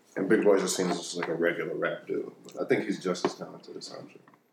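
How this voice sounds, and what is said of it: Quiet, pulled-back sexy voice. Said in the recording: “I can't hear you when you do your sexy pullback voice”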